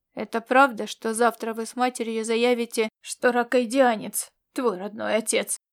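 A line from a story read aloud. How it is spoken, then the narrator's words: Growl. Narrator (Russian): рыкнул Корвин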